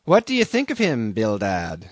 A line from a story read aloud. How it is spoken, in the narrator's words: said Peleg